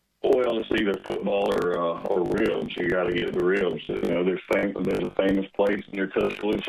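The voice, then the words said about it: Southern Alabama accent. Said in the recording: “You got that southern accent from deep Alabama, right?”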